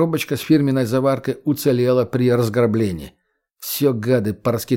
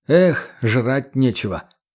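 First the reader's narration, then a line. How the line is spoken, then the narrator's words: Sigh. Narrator (Russian): вздохнул егерь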